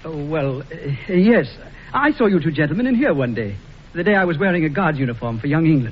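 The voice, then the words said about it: English accent. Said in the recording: “He's got an English accent.”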